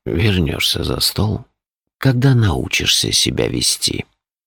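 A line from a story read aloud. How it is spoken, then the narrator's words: Almost gentle. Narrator (Russian): почти ласково сказал он мальчику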